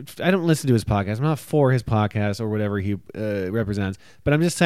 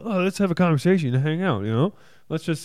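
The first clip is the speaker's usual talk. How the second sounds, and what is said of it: Imitates another person's voice. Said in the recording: “Is that a good Joe Rogan impression? ... No.”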